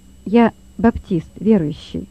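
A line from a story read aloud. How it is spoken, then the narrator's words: Calm, bold answer. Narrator (Russian): ответил Лёва спокойно и смело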